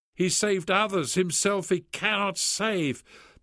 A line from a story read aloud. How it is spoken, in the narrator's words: they cried out